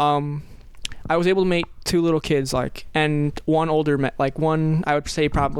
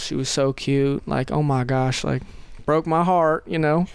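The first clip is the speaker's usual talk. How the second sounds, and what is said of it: Attempted Southern accent. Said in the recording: “that's me trying to do a southern accent”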